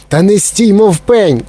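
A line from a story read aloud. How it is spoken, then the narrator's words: Shout. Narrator (Ukrainian): крикнула пані Глуп на пана Глупа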